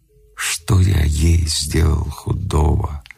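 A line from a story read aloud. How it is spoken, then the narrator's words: Muffled question. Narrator (Russian): глухо спросил Вавила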